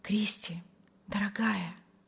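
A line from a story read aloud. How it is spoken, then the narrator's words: Delighted whisper. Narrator (Russian): восторженно шептал Вильям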